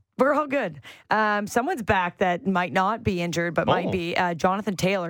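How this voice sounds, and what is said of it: Raspy, strained voice. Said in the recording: “I lost my voice at a wedding ... Anything and everything was being sung quite loudly ... my voice is raspy”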